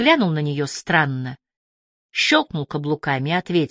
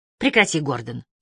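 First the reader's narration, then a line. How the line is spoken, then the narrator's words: Very cold. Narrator (Russian): она сказала очень холодно, очень по-хамстицки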